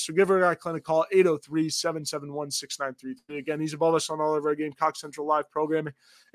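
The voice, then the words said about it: Voice with a cold. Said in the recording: “I've got a cold.”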